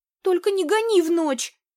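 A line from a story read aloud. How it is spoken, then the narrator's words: Timid babbling. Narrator (Russian): Пролепетала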